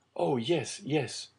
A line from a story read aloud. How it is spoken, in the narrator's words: exclaimed Dante